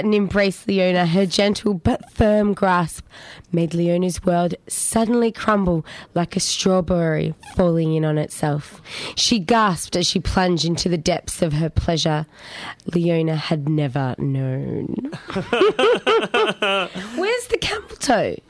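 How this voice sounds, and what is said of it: Husky voice. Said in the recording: “You've got a sexy voice for it... Especially today. It's gone a little bit huskier.”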